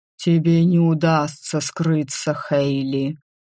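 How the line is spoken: Muffled doomed warning. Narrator (Russian): глухо предупредил дракон, обреченно

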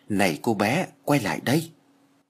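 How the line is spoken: Whisper from behind. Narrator (Vietnamese): tiếng thì thầm ở sau lưng

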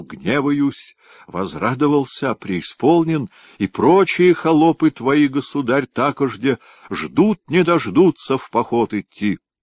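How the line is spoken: Excited exclamation. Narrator (Russian): красный от волнения воскликнул

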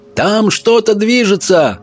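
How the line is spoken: Sentry shouting. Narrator (Russian): прокричал часовой

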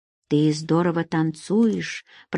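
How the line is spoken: Whisper. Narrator (Russian): прошептал

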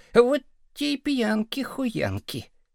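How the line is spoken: Dull muttering boy. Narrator (Russian): второй мальчишка глухо бормотал

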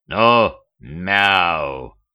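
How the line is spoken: Unexpectedly deep bass voice. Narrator (Russian): неожиданно басом произнес

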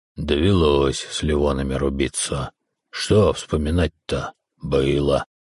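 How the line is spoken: Curt mutter. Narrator (Russian): буркнул в ответ на мой вопрос

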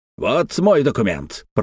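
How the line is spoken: Growled. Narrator (Russian): прорычал Антифер

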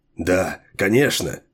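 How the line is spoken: Excited whisper against bars. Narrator (Russian): возбужденно зашептал вхоланец, прижимаясь лицом к решетке

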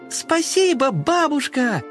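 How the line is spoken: Kittens shouting in chorus. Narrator (Russian): хором крикнули котята

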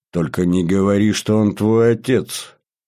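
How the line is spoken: Groaning. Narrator (Russian): простонал я

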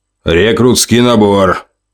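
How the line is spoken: Growling. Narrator (Russian): рычал он

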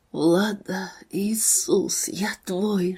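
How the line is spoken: Whispered. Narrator (Russian): шептали губы Эдика

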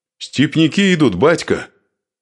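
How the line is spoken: Piercing shout. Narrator (Russian): выкрикнул, и пронзительный голос его после долгой тишины резанул по ушам

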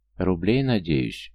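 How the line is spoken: Sighing. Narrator (Russian): вздохнул Артур

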